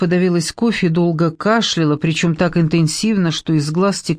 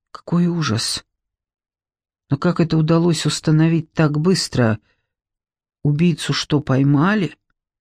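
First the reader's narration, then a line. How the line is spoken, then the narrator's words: Trembling question. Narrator (Russian): дрожащим голосом спросила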